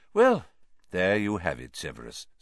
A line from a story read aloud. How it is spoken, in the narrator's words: said Dumbledore calmly